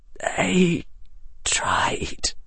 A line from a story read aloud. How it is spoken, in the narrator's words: Harry whispered